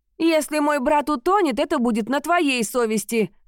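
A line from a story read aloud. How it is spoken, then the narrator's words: Snapping. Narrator (Russian): огрызнулась Лайлок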